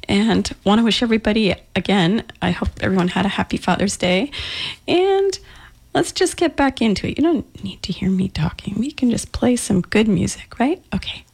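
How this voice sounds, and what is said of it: Slightly scratchy voice. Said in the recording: “my voice is a little scratchy”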